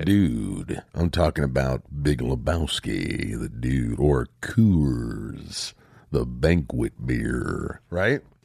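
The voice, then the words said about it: Deeper, slightly congested voice. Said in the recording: “Getting over a little sinus thing going on... my voice is a little deeper... It's like Sam Elliott”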